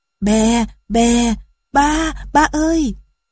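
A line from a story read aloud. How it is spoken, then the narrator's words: Child crying out. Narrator (Vietnamese): Đứa con của công chúa kêu lên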